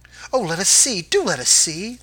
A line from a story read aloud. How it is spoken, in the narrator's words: the children cried